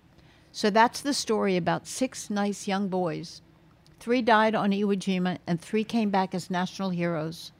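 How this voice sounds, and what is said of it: Strained, failing voice. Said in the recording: “My voice is giving out”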